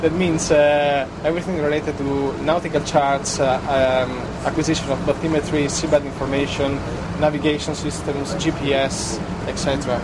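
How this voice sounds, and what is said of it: Italian accent. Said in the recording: “Judging by your accent and your name, you're not originally from Ireland. ... I'm from Italy”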